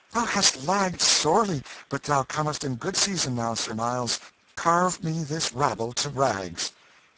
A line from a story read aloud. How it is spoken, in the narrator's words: The king sprang to his deliverer's side with flushed cheeks and sparkling eyes, exclaiming